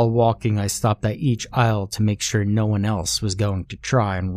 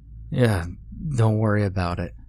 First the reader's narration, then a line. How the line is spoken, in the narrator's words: groaned